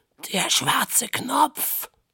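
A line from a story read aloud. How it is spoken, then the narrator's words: Croaking fish. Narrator (German): krächzte der rote Knurrhahn in der Hängematte nebenan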